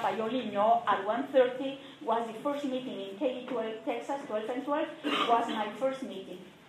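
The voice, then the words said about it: Latino-accented English. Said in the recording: “I was the only Latino person there ... if you cannot understand my accent now, could you imagine?”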